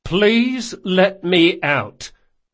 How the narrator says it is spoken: he said as evenly as he could manage

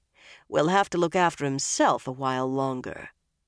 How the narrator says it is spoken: Nynaeve said dryly

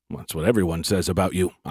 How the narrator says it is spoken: I mumbled

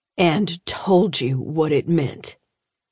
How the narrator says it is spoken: McKinney said slowly

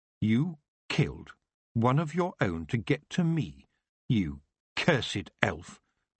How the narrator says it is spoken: Tiffany said, her voice cold, red-hot anger boiling inside her

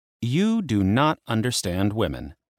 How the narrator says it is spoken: Hecate said

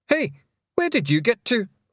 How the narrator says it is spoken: shouted Rob Anybody, glaring up at her

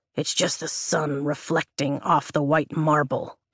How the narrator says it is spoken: he grumbles

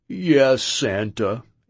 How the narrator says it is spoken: he replied with a resounding

